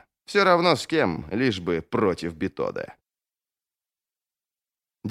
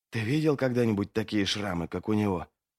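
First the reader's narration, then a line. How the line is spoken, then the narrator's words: Whisper. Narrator (Russian): прошептал один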